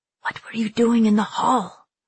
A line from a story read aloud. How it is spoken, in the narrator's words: Kashmir whispered fiercely